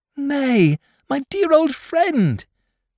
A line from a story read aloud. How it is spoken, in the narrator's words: cried Dot